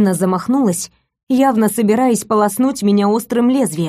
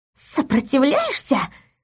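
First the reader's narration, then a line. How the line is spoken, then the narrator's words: Furious hiss. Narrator (Russian): прошипела невеста в ярости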